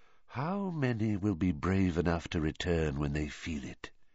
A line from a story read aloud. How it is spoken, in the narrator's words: he whispered